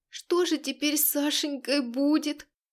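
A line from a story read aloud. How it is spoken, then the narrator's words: Moaning. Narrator (Russian): простонала Ванесса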